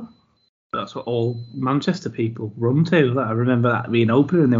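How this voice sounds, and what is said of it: Usual voice. Nothing is said of it.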